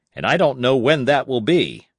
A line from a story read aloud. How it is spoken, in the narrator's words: barked Lynn